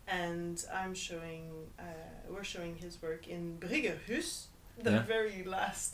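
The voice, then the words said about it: Put-on Norwegian accent. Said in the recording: “That was my impression of Norwegian accent. ... It did very well.”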